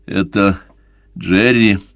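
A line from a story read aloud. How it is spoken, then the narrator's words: Plain. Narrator (Russian): спросил он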